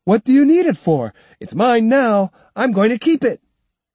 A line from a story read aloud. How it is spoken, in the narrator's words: shouting defiantly